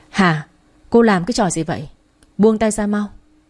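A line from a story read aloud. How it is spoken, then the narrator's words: Loud angry shout. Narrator (Vietnamese): tiếng cậu Hai quát lớn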